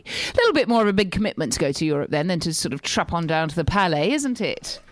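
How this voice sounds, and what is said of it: English accent. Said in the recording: “get rid of the accent ... nothing more exotic than an English accent”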